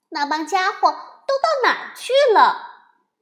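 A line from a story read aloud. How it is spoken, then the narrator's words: Loud muttering to himself. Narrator (Chinese): 他自言自语的大声说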